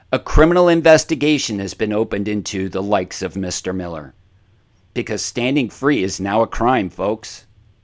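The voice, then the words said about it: Passionate, frustrated tone. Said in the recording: “the tenor of my voice is, yes, it's passion. Yes, it's frustration.”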